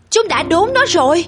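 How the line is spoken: Exclaiming. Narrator (Vietnamese): Sam kêu lên

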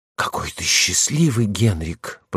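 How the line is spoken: Whispered. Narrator (Russian): прошептал

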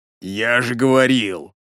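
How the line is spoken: Vagrant's rasp. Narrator (Russian): прохрипел бомж

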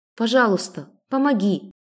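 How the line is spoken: Whispered. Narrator (Russian): прошептала

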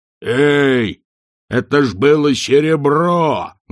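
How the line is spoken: Wailing yell. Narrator (Russian): завопил Хрун

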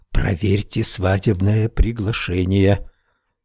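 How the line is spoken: Whisper. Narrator (Russian): она прошептала

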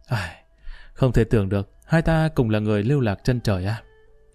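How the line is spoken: Self-mocking sighing speech. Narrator (Vietnamese): Trong tiếng cười bí mật mang theo một tia tự giễu, Lý Kỳ bỗng nhiên một tiếng thở dài nói

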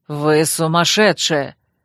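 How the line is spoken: Growling bodyguard. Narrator (Russian): рыкнул приставленный ко мне Дарио телохранитель

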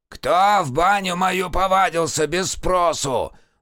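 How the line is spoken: Shouted. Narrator (Russian): закричал новый банник

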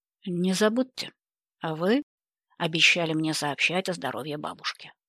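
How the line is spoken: Commanding reminder. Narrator (Russian): приказным тоном напомнил он

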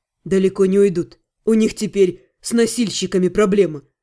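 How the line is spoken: Skeptical snort. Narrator (Russian): хмыкнул Ас

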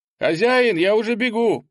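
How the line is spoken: Shouted, young lad. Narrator (Russian): прокричал паренек

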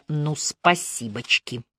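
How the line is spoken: Grumbled. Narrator (Russian): буркнула

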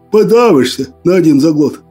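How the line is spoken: Laughing. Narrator (Russian): Засмеялся Крапчина

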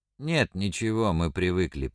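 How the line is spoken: Grumbling. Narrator (Russian): пробурчал Ряшкин

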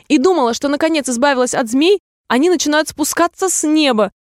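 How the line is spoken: Piercing shout, dove. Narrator (Russian): пронзительно прокричала голубка

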